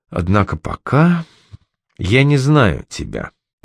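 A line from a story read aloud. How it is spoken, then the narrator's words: Weary sighing lion. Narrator (Russian): устало вздохнув, сдался лев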